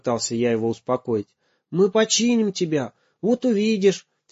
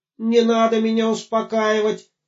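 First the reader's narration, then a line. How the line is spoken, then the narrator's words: Shouted. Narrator (Russian): закричал Гоша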